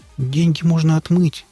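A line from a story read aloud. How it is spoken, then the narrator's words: Timid executive's advice. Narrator (Russian): робко посоветовал финансовый директор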